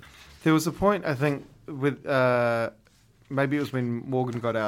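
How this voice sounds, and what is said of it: Usual voice. Nothing is said of it.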